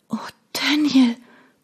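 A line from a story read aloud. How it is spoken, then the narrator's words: Gasping. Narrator (German): keuchte ich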